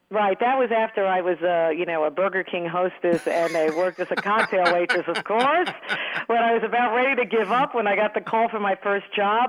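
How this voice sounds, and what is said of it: Thick New York accent. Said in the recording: “I'm glad I still have that accent ... my New York thick accent ... they prefer I open my mouth wider and talk slower so they don't have to hear it”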